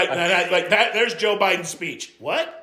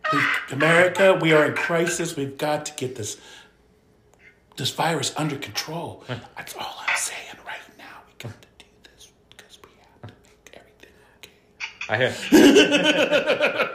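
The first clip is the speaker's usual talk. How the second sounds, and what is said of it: Whispered imitation of another person's voice. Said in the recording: “He's whispering. ... Why are you whispering? ... He's whispering”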